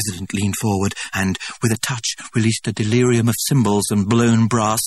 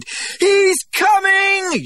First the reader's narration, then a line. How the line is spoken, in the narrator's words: yelled Jim Bokanovsky